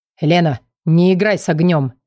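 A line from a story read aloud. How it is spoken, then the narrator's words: Man growling close. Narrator (Russian): Прорычал мужчина мне прямо в лицо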